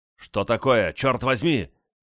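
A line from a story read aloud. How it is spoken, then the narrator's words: Distant shout from behind. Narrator (Russian): крикнул Гораско в дюжине шагов за его спиной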